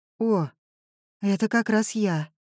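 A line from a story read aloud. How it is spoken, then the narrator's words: Sad. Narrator (Russian): печально сказала Журавская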